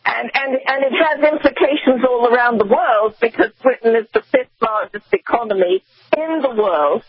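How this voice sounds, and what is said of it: British accent. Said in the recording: “you can tell by my accent, is Brexit”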